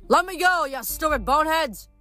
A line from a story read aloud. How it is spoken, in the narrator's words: bellowed